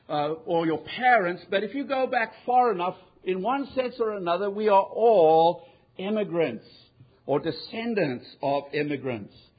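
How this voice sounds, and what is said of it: South African accent. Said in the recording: “He detected that I had an accent ... I'm from Cape Town ... I was from South Africa”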